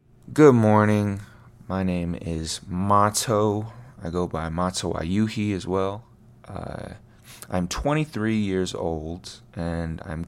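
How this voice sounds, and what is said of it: Low, raspy morning voice. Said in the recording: “my voice sounds low and raspy and kind of sexy”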